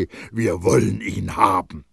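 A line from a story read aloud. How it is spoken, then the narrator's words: Thunderous crowd cry of rage. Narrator (German): erscholl es in einem einzigen donnernden Wut- und Racheschrei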